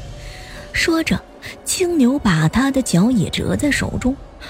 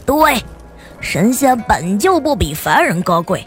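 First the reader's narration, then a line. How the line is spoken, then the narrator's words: Laughing loudly. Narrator (Chinese): 青牛大笑着说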